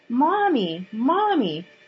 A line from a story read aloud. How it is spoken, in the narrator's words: cried out